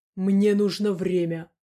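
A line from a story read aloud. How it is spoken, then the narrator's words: Through gritted teeth. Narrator (Russian): процедил Дима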